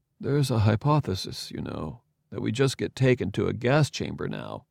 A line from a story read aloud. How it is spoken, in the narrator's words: Arcibald muttered